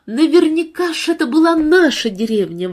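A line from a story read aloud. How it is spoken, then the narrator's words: Exclamation. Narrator (Russian): воскликнула Джесси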